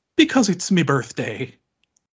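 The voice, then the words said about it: Exaggerated Irish accent. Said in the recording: “in a very offensive Irish accent ... that was a good Irish accent though”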